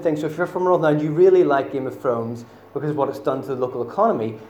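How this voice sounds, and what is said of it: Northern Irish accent. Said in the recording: “I'm from Northern Ireland, I know I've got a very subtle accent.”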